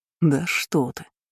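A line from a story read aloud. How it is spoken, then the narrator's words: Quiet, mocking. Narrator (Russian): Насмешливо, но тоже тихо ответил он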